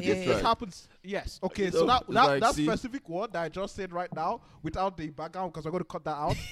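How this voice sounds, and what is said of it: Speaks with a noticeable accent. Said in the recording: “Maybe because of my accent.”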